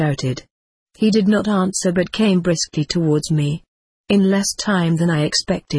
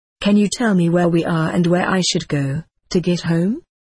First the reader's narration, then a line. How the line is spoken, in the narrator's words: I asked